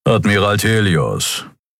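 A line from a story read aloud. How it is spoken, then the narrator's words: Unimpressed growl. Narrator (German): knurrte der Skria namens Keru unbeeindruckt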